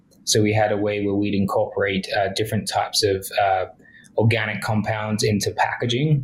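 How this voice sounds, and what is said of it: Non-Canadian accent. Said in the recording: “obviously you can tell from my accent, I'm not Canadian.”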